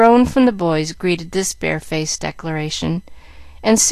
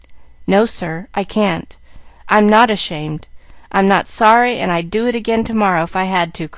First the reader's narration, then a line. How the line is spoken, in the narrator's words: cried Jack, losing patience